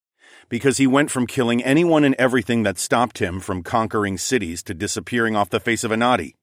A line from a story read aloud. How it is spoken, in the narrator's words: I said